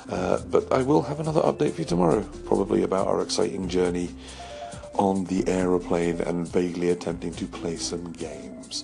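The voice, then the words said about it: Hoarse, worn-out voice. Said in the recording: “my voice is somewhat shot now”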